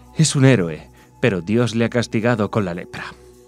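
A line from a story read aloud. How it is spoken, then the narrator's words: Woman, deep sigh. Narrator (Spanish): ella suspiraba hondo y decía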